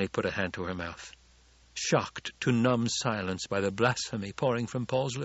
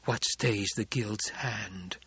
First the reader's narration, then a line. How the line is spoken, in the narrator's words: Jessica whispered